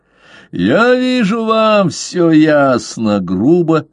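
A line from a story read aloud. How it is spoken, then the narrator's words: Laughing loudly. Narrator (Russian): захохотал Бишоп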